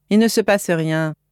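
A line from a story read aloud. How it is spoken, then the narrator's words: Plain. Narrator (French): dit Loïc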